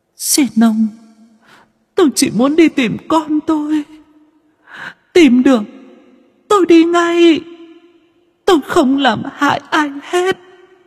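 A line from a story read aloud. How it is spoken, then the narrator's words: Sobbing pl. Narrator (Vietnamese): Hạ Lam lúc này đã ngừng rên rỉ mà thốt thít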